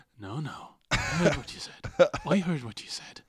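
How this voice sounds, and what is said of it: Imitation with slight Irish accent. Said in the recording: “He's got a slight Irish accent ... Irish and German ... He sounds a lot more Irish than I expected.”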